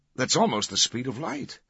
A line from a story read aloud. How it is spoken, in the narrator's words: one of the professors exclaimed